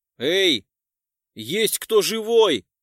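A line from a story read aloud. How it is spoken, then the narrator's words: Shouted into emptiness. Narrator (Russian): прокричал я в пустоту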